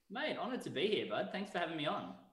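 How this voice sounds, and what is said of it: Australian accent. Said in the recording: “I do love the accent... the Australian accent”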